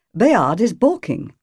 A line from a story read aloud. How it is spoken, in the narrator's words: said the prioress coldly